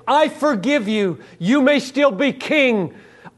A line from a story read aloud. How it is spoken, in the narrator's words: all the universe cries out